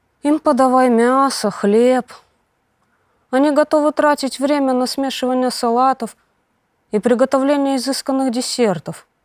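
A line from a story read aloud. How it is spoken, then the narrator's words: Dejected speech. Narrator (Russian): уныло проговорил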